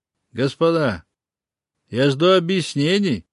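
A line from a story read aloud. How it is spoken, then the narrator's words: Stern. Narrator (Russian): строго начал король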